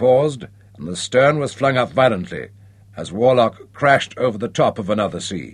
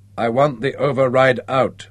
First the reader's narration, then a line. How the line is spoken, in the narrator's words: said Nick flatly